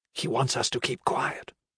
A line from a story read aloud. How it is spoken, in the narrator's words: Efreet whispered